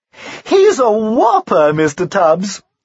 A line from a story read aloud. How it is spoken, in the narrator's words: she said, with a light laugh